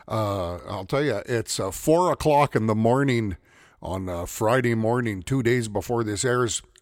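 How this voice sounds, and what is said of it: Slightly raspy voice. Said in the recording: “my voice sounds a little raspy. ... my voice sounds a little funny.”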